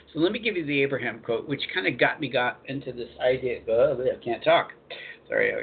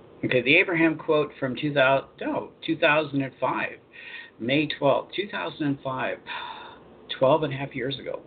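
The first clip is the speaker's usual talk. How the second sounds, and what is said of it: Slower, deeper, carefully articulated radio voice. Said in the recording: “I got to slow down a little bit. I have to get into my radio voice, right? Slow down a little bit. Articulate a little better, the deeper voice”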